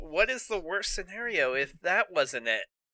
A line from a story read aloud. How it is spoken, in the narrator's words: He asked with sour expression